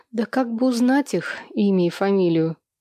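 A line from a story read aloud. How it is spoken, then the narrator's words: Sighing. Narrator (Russian): вздохнула я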